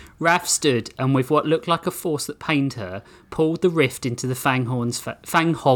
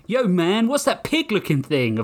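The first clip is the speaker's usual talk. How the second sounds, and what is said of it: Put-on New York American accent. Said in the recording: “Super good American accent. ... Yeah, that was perfect. ... I was like, am I in New York?”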